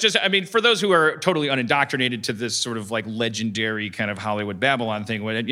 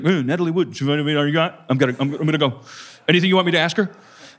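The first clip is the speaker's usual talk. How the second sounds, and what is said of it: Cartoonish Yogi Bear-like imitated voice. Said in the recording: “Is that how I sound? ... Why am I Yogi Bear? ... I had to make you sound different from me.”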